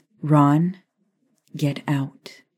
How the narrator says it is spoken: Maya said, her words final, her tone cold and calm

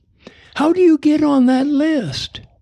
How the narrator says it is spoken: A voice called out from across the diner

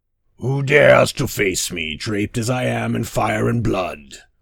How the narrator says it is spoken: roared Dagon

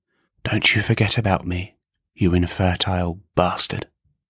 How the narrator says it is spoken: in solemn response, Seed whispered close in his ear

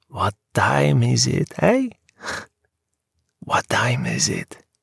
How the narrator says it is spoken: He whispered

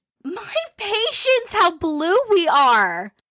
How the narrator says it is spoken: cried Jo

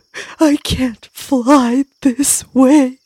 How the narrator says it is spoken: Butterfly sobbed

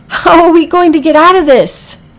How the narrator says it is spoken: She cried

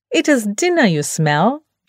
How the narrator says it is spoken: Beanpole snapped

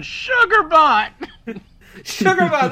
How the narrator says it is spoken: screaming

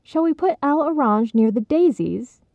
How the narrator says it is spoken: Cheryl asked brightly

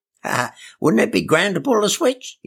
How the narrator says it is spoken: Eli giggled

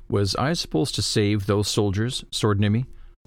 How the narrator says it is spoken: said

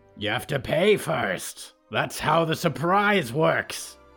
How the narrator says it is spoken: Mikey shouted

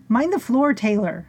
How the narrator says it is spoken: Norma shouted

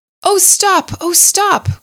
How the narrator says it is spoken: cried the mole

